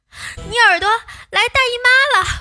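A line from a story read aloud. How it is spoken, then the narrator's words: Loud shout. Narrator (Chinese): 二货同事见状大喊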